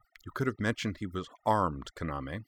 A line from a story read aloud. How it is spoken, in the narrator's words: Natsuki muttered out of the side of her mouth